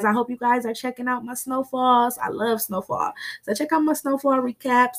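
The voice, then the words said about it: Slightly raspy voice. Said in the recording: “sorry if my voice was a little raspy tonight, guys. My allergies are acting up ... coughing on the mic”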